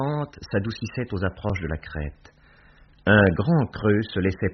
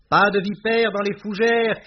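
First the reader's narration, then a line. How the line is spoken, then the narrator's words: Shouted. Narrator (French): cria-t-elle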